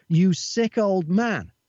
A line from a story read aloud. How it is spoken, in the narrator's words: a 22-year-old man shouted